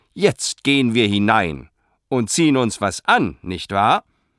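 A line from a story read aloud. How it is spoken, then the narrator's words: Far too loud. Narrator (German): sagte viel zu laut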